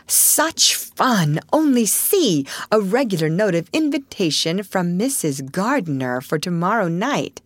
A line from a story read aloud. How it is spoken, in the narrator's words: cried Meg, with girlish delight